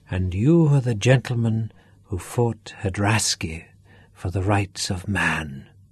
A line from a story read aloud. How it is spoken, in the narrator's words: Duff said softly